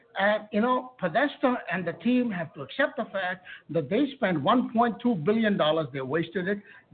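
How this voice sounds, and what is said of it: Indian-accented English. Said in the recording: “That's a guy from India, if I can gauge off his accent.”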